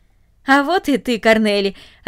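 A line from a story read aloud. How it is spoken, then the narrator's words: Joyful. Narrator (Russian): радостно сказал он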